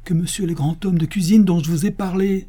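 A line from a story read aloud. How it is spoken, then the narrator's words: Exclaimed. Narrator (French): s'écria Don Diego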